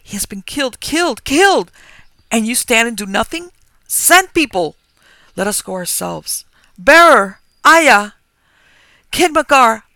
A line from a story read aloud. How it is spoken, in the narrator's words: cried, raising my voice